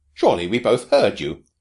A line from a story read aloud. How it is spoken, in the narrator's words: exclaimed Mung Thua